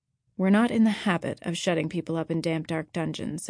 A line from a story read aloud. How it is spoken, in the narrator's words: said Marilla dryly